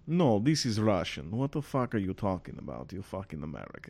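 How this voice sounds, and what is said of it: Bad put-on Russian accent. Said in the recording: “you started out as like a Russian ... this horrible accent”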